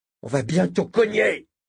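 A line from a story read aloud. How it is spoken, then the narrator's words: Yelping. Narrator (French): glapit Moram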